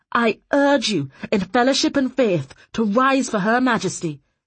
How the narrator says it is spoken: he shouted

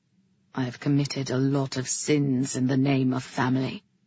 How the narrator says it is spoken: he said, his voice low and harsh, like the sound was caught in his throat

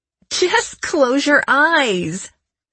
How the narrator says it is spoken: I laughed

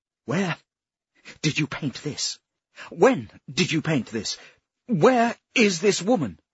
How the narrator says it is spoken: he asked desperately

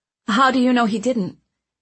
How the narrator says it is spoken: Owen stammered

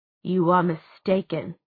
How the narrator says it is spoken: she said coldly

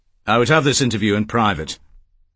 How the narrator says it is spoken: Kemp said coldly

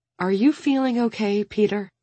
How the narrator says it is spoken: Fatima asks anxiously

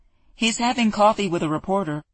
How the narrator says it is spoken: Theo's assistant called out to her

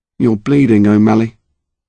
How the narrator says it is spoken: Harry said, calmly

